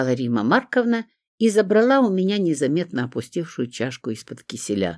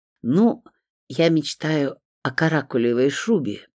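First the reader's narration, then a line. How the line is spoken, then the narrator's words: Shy, quiet. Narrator (Russian): пряча глаза, тихо сказала Римма Марковна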